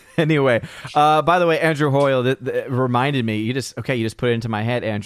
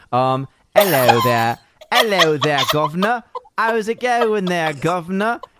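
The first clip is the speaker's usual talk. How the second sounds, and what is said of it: Deliberately terrible put-on British accent. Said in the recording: “accents ... Is this a terrible enough accent for you, governor?”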